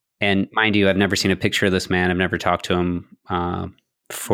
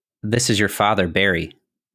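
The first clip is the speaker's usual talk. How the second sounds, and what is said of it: Weak put-on Southern accent. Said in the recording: “says in a strange Southern accent ... I don't do a good Southern accent”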